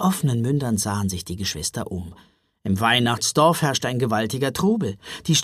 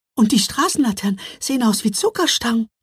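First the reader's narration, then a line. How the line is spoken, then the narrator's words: Astonished gasp. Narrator (German): japste Mila, die ihren Augen nicht trauen wollte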